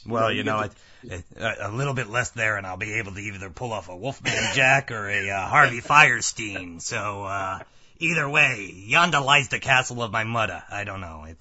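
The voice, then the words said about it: Gravelly, rough voice. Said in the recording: “You still sound kind of messed up. ... I'm a little gravelly there, yeah. It chewed on me a bit. ... getting over this chest cold”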